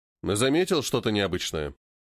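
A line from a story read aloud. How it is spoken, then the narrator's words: Plain. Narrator (Russian): спросил Спартак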